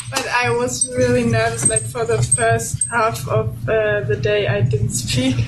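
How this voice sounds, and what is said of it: Foreign accent. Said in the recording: “they're gonna like that accent”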